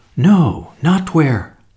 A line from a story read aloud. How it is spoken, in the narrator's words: faltered